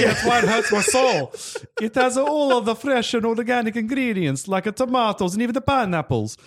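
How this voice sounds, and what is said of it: Usual voice. Nothing is said of it.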